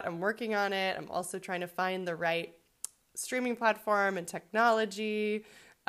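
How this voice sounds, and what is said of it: Crackly, sore-throated voice. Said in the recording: “I have a really sore throat that I've had for 3 months now ... my voice is a little crackly”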